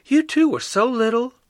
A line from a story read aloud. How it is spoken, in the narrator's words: sighed